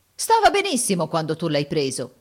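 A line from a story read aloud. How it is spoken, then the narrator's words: Indignant exclamation. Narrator (Italian): esclama indignato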